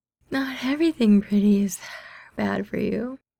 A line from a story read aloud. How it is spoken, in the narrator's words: Mingyu yawns in a considering tone